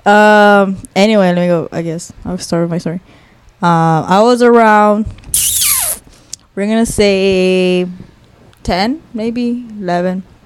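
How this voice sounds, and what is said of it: Hoarse, worn-out voice. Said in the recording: “my voice is shot. If you can't tell by my laugh, I'm dying.”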